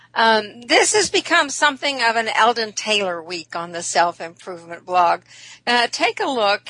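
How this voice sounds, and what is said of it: Weird-sounding voice, recovering from illness. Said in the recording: “if I sound funny, I still am battling the residue of the flu ... my voice is a little weird”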